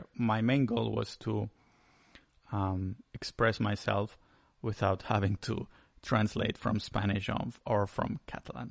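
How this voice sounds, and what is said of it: Spanish accent in English. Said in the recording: “my accent is still kind of off and it sounds really Spanishy”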